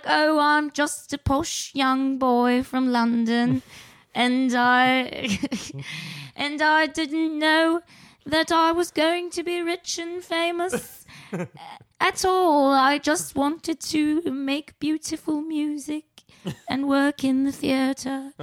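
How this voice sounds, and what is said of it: Bad put-on posh British accent. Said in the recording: “probably the worst British accent in the history of the world”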